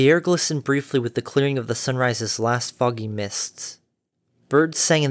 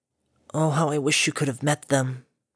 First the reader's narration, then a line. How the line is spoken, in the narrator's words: the fool quietly said to the whipping morning wind